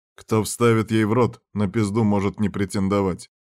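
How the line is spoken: Stern overseer tone. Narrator (Russian): строгим тоном надзирателя сказал замшефа

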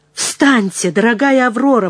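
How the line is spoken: Exclaimed. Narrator (Russian): воскликнул

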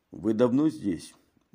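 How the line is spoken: Gruff mutter. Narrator (Russian): буркнул Мегре

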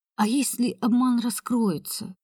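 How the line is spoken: Plain. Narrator (Russian): спросила я

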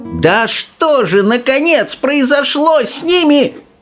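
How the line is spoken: Old woman yelling. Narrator (Russian): заорала бабушка Джорджина

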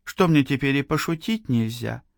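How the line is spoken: Sad woman. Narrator (Russian): произнесла женщина, грустно

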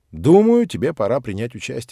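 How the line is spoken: Plain. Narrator (Russian): сказал тренер

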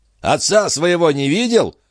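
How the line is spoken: Shouted after someone. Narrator (Russian): крикнул ему в спину Когли

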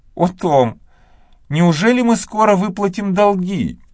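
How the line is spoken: Joyful exclamation. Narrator (Russian): воскликнула Мэгги, и вспышка нежданной радости

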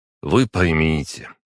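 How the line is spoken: Conciliatory teacher. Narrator (Russian): уже более примирительным тоном проговорил преподаватель

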